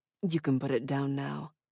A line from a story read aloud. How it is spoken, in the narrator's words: Asa said gently